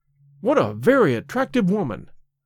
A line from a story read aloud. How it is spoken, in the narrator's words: I exclaimed